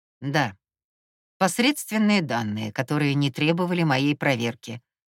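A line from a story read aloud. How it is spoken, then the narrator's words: Curt, dry. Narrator (Russian): сухо бросил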